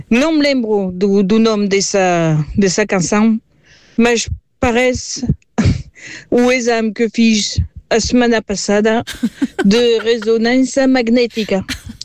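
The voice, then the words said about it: French accent speaking Portuguese. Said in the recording (Portuguese): “sou francesa ... desculpa o meu sotaque ... A minha maneira de falar.”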